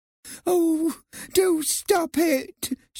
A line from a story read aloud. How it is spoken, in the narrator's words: said tearfully